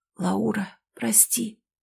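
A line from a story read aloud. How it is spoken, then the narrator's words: Whispered. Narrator (Russian): прошептал я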